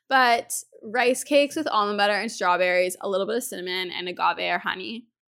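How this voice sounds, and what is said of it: Hoarse, failing voice from cold. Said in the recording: “my voice is going again, guys. I'm still getting over this freaking head cold... But wow, my voice.”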